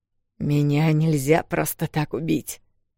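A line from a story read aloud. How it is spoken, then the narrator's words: Growled. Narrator (Russian): прорычал он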